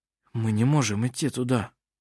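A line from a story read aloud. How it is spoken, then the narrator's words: Whispering. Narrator (Russian): сказал он шепотом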